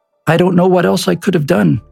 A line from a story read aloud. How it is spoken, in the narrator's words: replied Gorbachev